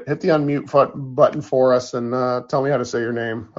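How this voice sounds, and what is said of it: Scratchy, rough voice. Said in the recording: “my voice is all scratchy”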